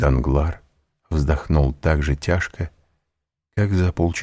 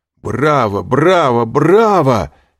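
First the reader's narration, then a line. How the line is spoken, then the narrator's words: Shouted, mimicking a banker. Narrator (Russian): крикнул Альбер, подражая банкиру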